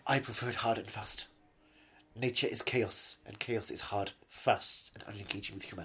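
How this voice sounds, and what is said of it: German-sounding accent. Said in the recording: “With that accent, I mean... Your accent's very uncomfortable. It makes me feel like you're going to click your heels and Heil Hitler any second now.”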